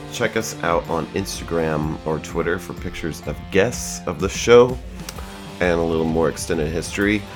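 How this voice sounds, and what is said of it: Rough voice from a cold. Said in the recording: “my voice sounds like shit. It's a crazy cold.”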